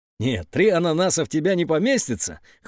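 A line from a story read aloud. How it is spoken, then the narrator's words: Boy, amused snort. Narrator (Russian): хмыкнул мальчик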